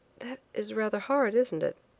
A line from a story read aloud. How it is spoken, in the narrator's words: said quietly, forcing a smile that was on the lips but came from nowhere near the heart